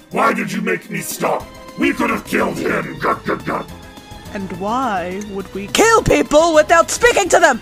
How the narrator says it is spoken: Helg roars and says

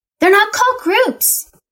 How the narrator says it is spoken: Tabitha shouted

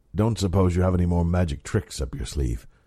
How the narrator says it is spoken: Oban asked

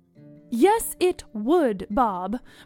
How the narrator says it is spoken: Veronica said firmly

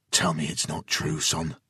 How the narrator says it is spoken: Jason pled quietly

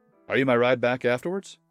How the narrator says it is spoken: I asked

